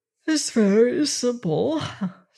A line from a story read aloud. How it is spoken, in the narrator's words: said Manzel, stifling a yawn